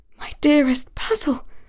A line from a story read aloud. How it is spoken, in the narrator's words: said Talia under her breath